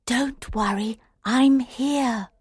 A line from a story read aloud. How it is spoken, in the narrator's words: Alice whispered